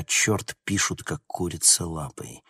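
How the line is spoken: Muttering. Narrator (Russian): Констебль бормоча

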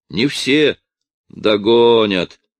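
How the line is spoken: Confident, then laughing. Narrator (Russian): уверенно сказал и засмеялся

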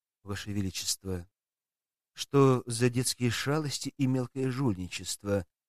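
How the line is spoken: Even calm question. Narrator (Russian): ровным голосом спросил представитель Верховного Совета эр Давид Рубинштейн

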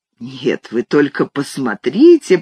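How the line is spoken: Muttered. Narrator (Russian): пробормотал

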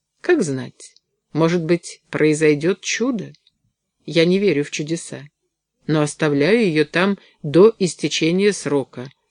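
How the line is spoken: Plain. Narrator (Russian): сказала она

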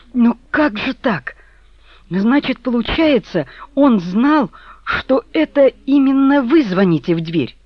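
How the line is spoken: Sudden cry. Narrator (Russian): она вдруг вскрикнула

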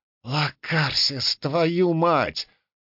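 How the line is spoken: Whisper. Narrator (Russian): прошептал я

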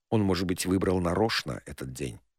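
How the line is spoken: Quiet. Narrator (Russian): тихо сказал Мато

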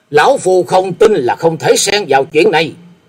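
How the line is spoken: Loud shout after panting. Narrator (Vietnamese): Sau một lúc thở dốc, hét lên một tiếng lớn

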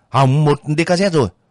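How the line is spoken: Shouting into radio. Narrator (Vietnamese): Giáp quát vào máy

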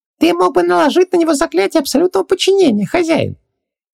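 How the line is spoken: Nasty giggling suggestion. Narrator (Russian): подсказал Хубаксис, пакостно хихикая

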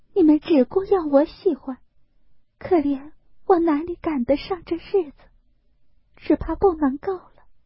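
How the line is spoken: Choked sobbing. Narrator (Chinese): 黛玉哽咽道

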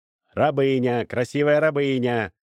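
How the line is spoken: Shouted. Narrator (Russian): закричал Рапану

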